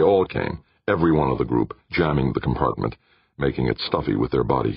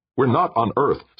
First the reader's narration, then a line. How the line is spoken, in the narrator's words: snapped